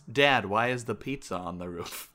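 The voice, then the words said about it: Imitates a TV character's voice. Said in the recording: “That's my go-to Walt Jr. impression”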